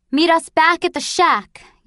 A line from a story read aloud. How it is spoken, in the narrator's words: yelled Mother to Jonas